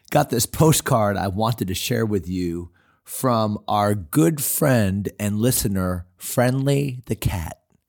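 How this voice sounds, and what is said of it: Voice slightly off, unwell. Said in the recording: “Pardon my voice. I've got a little bit of something going on”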